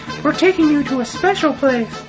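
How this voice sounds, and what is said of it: High-pitched put-on voice. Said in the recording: “in a high voice,”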